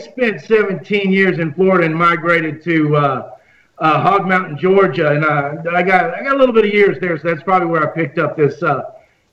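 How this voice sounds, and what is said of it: Texan-sounding Southern accent. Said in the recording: “with that Texas accent ... you sound like the Texan ... you sound like a rough and tough rancho”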